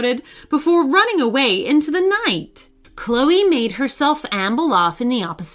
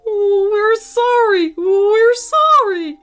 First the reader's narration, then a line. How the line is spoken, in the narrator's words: whimpered the grown-ups